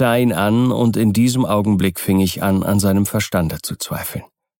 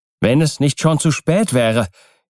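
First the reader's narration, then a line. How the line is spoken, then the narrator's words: Indignant cry. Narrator (German): rief ich in voller Entrüstung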